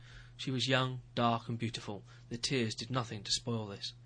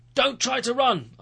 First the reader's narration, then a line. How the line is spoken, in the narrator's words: I shouted after her